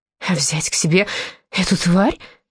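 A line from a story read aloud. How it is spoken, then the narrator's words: Weak voice. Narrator (Russian): произнесла слабым голосом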